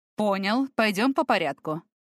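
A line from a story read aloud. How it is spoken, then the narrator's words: Wry snort. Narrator (Russian): хмыкнул Тамир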